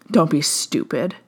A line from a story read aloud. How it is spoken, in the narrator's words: he scoffed